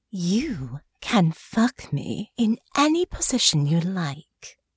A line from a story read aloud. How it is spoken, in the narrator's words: purred